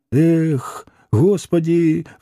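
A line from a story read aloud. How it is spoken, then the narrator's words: Sigh. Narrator (Russian): вздохнул Митрофанов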